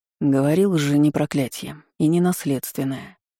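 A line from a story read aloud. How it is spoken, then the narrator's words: Mutter. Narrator (Russian): бормотал мастер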